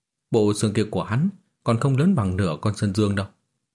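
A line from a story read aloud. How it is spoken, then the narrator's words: Crowd laughing loudly. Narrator (Vietnamese): Học viên bốn phía cất tiếng cười to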